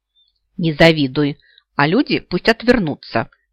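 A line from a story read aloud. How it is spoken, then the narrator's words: Loud grumble. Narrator (Russian): пробурчала я достаточно громко для того, чтобы меня услышали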